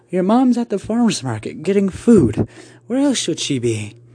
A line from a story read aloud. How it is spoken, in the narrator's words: She gave a light chuckle